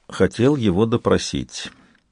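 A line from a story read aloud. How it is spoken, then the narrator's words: Calm statement. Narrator (Russian): Спокойно произнесла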